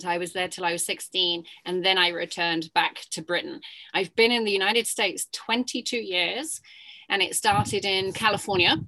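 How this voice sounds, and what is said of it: Non-American accent. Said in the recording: “So you have an accent. So clearly you are not from the US.”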